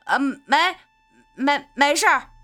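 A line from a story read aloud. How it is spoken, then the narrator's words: Man shouting from outside. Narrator (Chinese): 外边的男人在喊着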